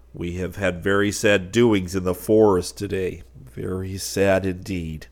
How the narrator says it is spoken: declared the Blue Jay in a grave voice

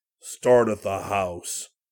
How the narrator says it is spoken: Brad growled

